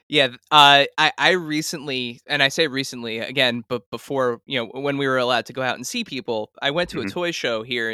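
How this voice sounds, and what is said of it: New Jersey accent. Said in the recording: “I'm from Jersey too. You know, when I could hear it, I can hear it in your accent.”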